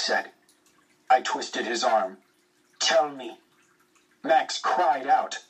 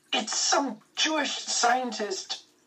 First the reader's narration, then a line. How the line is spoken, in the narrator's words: Max spat out